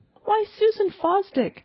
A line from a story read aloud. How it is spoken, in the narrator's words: I heard her exclaim in a fine, unhindered voice, as if she were calling across a field